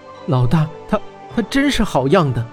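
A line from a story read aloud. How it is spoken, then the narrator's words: Admiring exclamation. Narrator (Chinese): 温莎感叹道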